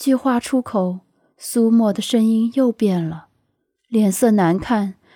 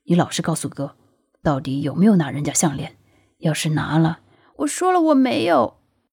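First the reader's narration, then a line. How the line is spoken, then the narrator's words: Very low question. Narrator (Chinese): 声音压到最低，问出了一句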